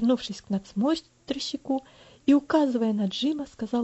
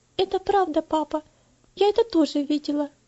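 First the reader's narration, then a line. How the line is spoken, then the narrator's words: Timid embarrassed girl. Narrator (Russian): ответила девочка, слегка покраснев и робко озираясь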